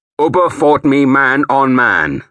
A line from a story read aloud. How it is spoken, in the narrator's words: I said, too loudly now